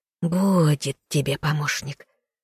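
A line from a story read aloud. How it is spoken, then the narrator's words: Hissing, old woman's voice. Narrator (Russian): прошипела паучиха голосом бабы Нюры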